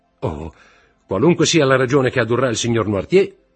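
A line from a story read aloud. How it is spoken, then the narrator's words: Shouting. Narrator (Italian): gridò Morrel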